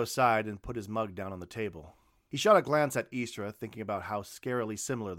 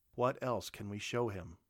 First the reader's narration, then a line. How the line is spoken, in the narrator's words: asked flatly